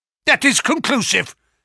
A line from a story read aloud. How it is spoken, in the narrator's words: said the Professor, glaring angrily